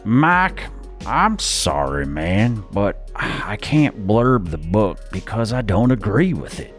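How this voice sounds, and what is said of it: Put-on Texan accent. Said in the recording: “that, by the way, was after Googling how to do a Texan accent. So that's the best I've got. I'm going to stick to my day job.”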